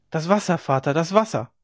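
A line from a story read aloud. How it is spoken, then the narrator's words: Calling out. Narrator (German): rief sie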